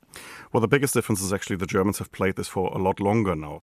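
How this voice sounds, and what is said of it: German accent. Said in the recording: “It's impossible, of course, to get my German accent out of me.”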